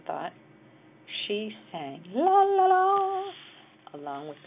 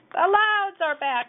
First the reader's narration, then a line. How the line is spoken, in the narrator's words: shouted the neighbors